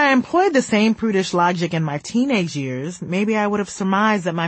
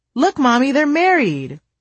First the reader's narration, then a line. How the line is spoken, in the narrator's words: Whenever I'd see two characters on screen kissing, I would exclaim